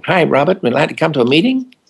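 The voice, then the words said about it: Weak put-on American accent. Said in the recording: “Forgive my American accent, I don't do it well.”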